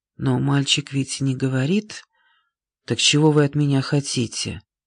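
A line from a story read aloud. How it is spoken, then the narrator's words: Quiet voice. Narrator (Russian): Она произнесла тихим голосом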